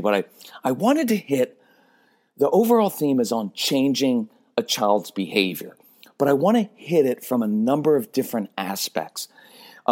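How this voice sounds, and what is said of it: Raspy voice. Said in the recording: “my voice is a little bit raspy ... using up on my man words ... my voice is a little bit raspy”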